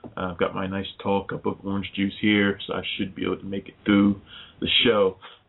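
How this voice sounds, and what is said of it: Sick, under-the-weather voice. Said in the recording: “I am a little under the weather as well.”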